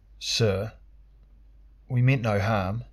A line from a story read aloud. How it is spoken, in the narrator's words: thickly said a fat Shazarian herb trader